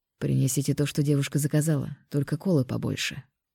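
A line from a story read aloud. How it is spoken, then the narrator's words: Quiet. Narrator (Russian): тихо сказал он официанту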